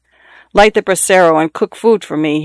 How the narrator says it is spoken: he told her in the same peremptory tone

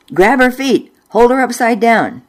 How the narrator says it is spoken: Mother yelled at Dad

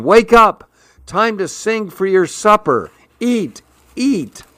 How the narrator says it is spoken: shouting

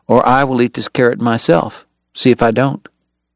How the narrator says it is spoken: John Henry warned softly

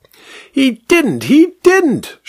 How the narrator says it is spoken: shrieked the vicar

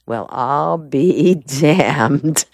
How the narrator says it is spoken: Perry Mason said softly

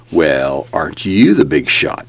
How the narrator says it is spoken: Vic snarled

